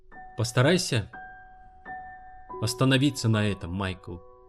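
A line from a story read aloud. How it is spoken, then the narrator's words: Gentle. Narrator (Russian): мягко сказала она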